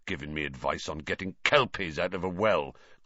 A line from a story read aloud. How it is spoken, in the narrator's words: growled